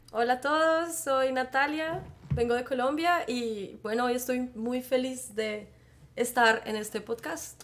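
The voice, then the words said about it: Colombian Bogotá Spanish accent. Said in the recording (Spanish): “alguien con un acento que no es de España ... mi acento es un poco diferente ... mi acento es de Bogotá”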